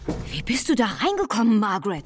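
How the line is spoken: Very excited shout. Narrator (German): rief Albert völlig aufgeregt

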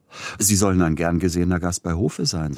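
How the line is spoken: Plain. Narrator (German): sagte Peter Iljitsch

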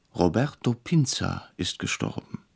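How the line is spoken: Startled, quiet. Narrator (German): erschrocken sagte leise

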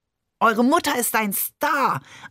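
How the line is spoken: Overjoyed shout. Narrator (German): schrie Barbe überglücklich

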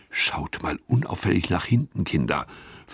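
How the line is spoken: Whispered. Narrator (German): flüstert Gustav

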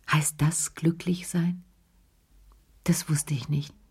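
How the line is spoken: Very quiet. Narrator (German): sagte er ganz leise

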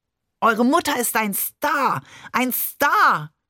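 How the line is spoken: Overjoyed shouting. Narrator (German): schrie Barbe überglücklich

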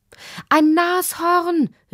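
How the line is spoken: Mother calling out. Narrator (German): rief Lottis Mutter

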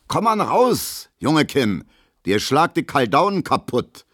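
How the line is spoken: Calling after someone. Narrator (German): ruft Gustav Schmelo hinterher

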